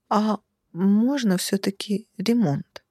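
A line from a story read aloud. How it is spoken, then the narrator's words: Timid question. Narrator (Russian): робко поинтересовалась я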